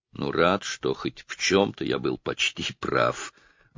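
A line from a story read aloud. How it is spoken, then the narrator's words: Mumbled. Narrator (Russian): пробормотал Роджер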